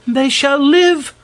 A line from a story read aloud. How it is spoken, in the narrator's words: cried the other